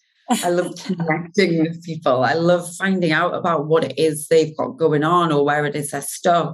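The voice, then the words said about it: Geordie accent. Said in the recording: “my dodgy Geordie accent”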